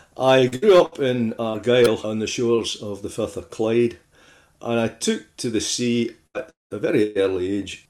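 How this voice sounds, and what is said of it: Glaswegian Scottish accent. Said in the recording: “they're not listening to an Irish accent. I have to say, tune your ears to Glasgow, not Cork, please.”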